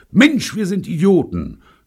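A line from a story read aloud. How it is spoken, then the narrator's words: Sudden shout. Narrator (German): schrie Bunny plötzlich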